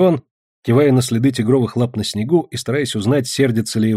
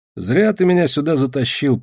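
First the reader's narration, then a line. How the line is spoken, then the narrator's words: Grumbled. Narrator (Russian): проворчал Иван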